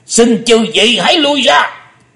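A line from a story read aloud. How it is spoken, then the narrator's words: Thunderous roar. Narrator (Vietnamese): Âm Ma giáo chủ gầm to tợ sấm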